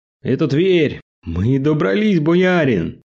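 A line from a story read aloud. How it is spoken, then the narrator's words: Exclaiming. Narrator (Russian): воскликнул Мишка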